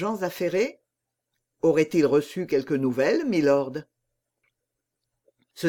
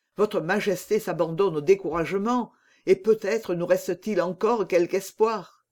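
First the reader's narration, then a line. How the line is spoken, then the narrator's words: Exclaimed. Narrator (French): s'écria de Winter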